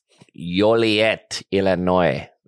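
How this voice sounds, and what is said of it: Put-on Spanish accent. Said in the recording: “That's a Spanish accent. I don't know why I did that.”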